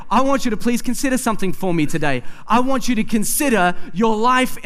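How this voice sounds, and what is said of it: Usual voice. Nothing is said of it.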